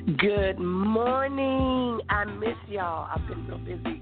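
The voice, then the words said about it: Southern twang. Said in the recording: “she always brings that southern twang to the broadcast”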